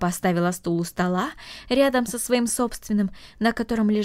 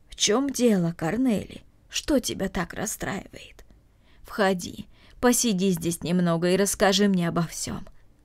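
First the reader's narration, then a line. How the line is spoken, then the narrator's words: Gentle. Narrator (Russian): ласково сказала Марта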